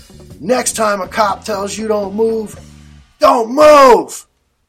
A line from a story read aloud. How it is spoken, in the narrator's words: He yells at us